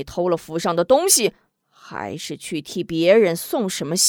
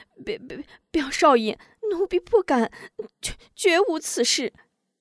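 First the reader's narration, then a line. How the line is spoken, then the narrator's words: Startled, trembling voice. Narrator (Chinese): 秋菊心中一惊，颤声道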